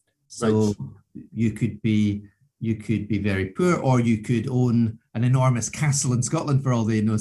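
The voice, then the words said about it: Scottish accent. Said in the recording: “they know you've got a Scottish accent”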